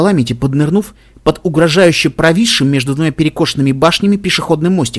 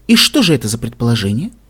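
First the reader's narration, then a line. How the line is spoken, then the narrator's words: Tender question. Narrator (Russian): ласково спросила Вильвет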